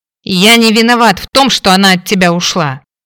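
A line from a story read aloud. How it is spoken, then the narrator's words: Growled. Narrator (Russian): рыкнул Кейн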